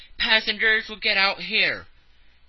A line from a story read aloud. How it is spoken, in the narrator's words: The conductor shouted